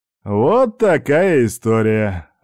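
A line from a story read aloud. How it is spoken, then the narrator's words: Slightly tipsy voice. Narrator (Russian): закончил Степан слегка захмелевшим голосом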